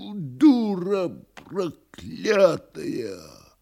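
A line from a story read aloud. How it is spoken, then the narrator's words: Enraged hoarse wheeze. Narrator (Russian): С глазами, налитыми кровью, Никанор Иванович ... хрипя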